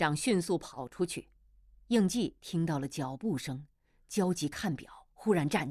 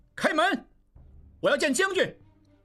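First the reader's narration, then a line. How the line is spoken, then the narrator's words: Shouting. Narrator (Chinese): 应季喊道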